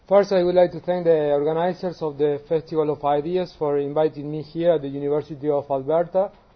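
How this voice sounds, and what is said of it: Argentine Spanish accent in English. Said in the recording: “I'm from Argentina, from my accent ... The biggest challenge you have to face in my class is not math nor physics, it's my accent.”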